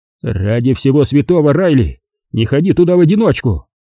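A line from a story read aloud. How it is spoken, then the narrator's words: Barked reply. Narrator (Russian): рявкнул он в ответ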